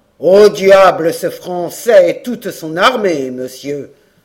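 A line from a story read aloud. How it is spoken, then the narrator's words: Stern old veteran's cry. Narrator (French): s'écria le vétéran en s'armant d'un front sévère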